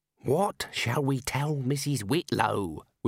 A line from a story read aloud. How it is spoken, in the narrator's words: whispered the senior wrangler